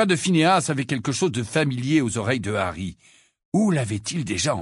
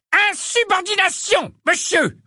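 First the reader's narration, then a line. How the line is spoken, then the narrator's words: Roared, stout wizard. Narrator (French): rugit un sorcier corpulent au nez rouge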